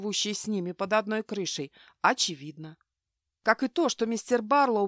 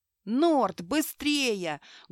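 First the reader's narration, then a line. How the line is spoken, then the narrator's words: Loud encouragement. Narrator (Russian): громко подбадривал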